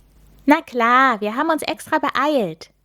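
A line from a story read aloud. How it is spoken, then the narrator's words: Cheerful reply. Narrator (German): erwidert Milan fröhlich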